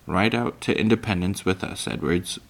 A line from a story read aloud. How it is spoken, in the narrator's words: Pa said